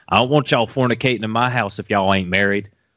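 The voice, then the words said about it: Twangy imitated voice. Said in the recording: “where did that twang come from? ... That was the guy.”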